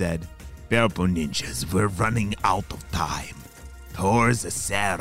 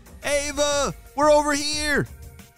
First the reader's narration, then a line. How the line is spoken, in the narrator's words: shouted Jaden